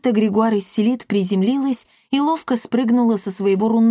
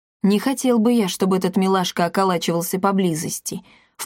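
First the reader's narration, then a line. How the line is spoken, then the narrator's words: Low voice. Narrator (Russian): вполголоса сказал Эдвин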